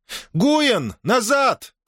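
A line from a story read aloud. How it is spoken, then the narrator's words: Princess shouting. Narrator (Russian): крикнула принцесса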